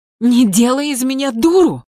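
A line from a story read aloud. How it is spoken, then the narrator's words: Nearly shouting. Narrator (Russian): почти закричала Светлана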